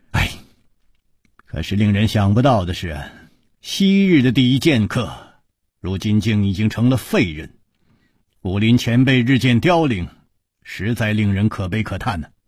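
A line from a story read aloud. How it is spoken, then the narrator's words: Long sigh. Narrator (Chinese): 楚留香长叹说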